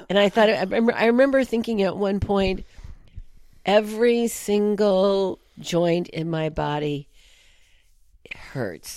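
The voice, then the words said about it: Voice still rough from illness. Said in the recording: “You probably can still hear in my voice. ... That I, you know, have the residues of it.”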